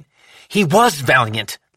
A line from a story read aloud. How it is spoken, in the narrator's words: Lou snapped